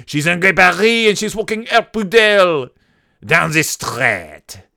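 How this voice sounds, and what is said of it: Exaggerated French accent. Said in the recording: “if you think I'm exaggerating my accent, no, trust me, this is the accent that people in this France speak with”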